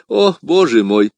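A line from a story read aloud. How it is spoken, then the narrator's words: Laughing exclamation. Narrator (Russian): смеясь, воскликнул он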